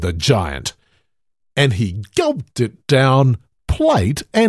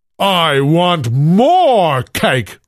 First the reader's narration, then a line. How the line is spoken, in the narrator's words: roared the giant